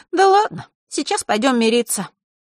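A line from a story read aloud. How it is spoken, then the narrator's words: Sighing. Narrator (Russian): вздохнула Захара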